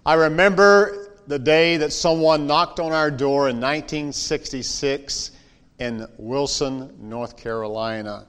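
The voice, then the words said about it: Southern North Carolina accent. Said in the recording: “some of that Tar Heel accent already ... I haven't lost all of my accent ... some things that are really Southern”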